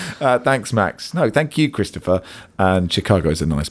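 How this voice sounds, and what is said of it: Usual voice. Nothing is said of it.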